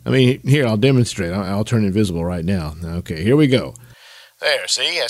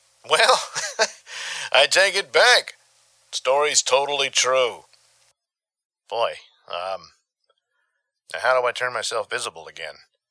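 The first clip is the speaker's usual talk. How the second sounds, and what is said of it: Voice sounds like a bad phone line. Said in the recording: “Now I sound like a crappy phone”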